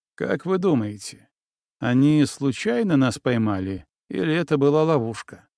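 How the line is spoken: Plain question. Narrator (Russian): спросил Григорьев

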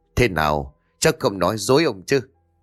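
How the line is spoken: Laughing loudly, chubby boy. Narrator (Vietnamese): Dữ tà vần cậu béo cười lớn rồi nói

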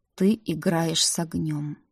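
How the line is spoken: Slow drawl. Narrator (Russian): медленно протянул Рик

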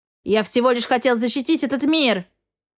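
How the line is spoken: Barked. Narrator (Russian): рявкнул Эгра

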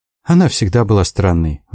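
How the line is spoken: Sighed, female. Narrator (Russian): вздохнула Одри

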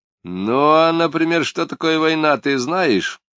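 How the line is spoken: Mocking question. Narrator (Russian): осведомился он насмешливо

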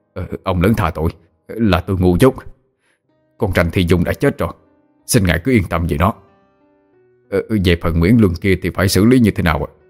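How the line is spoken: Flustered, hurried. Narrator (Vietnamese): Ngô Sinh rối rít nói

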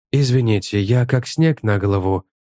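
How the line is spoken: Soft, gentle. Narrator (Russian): мягко произнес Мелз

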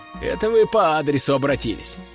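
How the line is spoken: Chuckling. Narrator (Russian): хохотнул я

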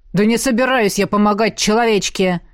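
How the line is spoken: Roaring. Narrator (Russian): взревел тот

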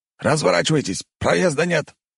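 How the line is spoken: Soldier's bark. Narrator (Russian): рявкнул боец

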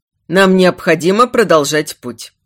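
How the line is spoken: Grumbling captain. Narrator (Russian): проворчал капитан

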